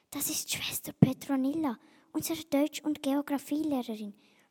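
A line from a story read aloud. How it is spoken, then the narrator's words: Whispering. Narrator (German): flüsterte Paula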